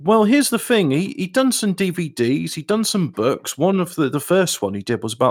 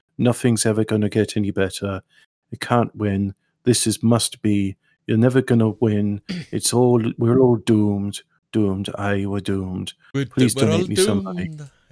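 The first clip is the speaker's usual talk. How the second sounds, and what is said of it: Gloomy, flat, expressionless monotone. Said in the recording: “him talking like this in a very moribund voice ... a completely flat monotone, no expression to his voice”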